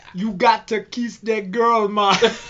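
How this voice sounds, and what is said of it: Exaggerated fake Jamaican accent. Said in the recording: “ridiculous Jamaican crap ... Fakest Jamaican accent”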